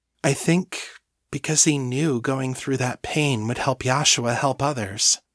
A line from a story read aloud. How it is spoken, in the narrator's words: she said, her voice steady and thoughtful